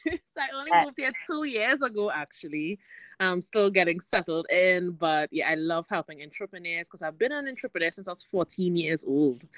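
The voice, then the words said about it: Trinidadian accent. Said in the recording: “I'm originally from Trinidad and Tobago. ... And I love your accent.”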